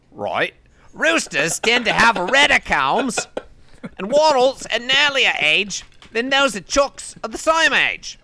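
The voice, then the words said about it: Put-on Australian accent. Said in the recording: “Do I have to read this in an Australian accent to keep your attention?”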